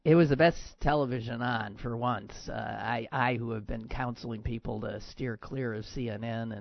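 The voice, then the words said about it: Hoarse, ragged voice. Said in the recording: “I was screaming a lot last night at my television set. And I come to you ragged.”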